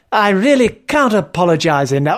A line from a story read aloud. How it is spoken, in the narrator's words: I exclaimed heartily